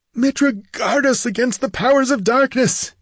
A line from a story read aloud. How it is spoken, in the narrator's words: he gasped